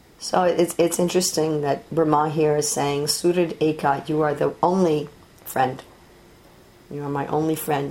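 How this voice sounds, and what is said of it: Scratchy, quiet, sick-sounding voice. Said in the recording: “I'm still getting over this cold or flu, and so my voice is a little scratchy ... I don't have so much volume, and it sounds a little funny.”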